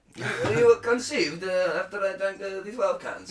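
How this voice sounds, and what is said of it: Put-on Russian accent. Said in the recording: “my Russian accent”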